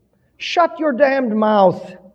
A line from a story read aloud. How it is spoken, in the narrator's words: cried